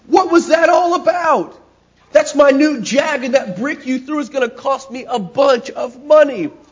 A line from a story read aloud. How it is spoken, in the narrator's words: he screamed